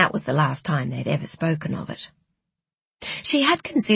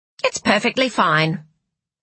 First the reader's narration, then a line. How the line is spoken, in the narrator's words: she'd said curtly